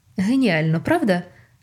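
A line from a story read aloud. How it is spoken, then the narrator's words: Joyful agreement. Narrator (Ukrainian): радісно погодився Ньют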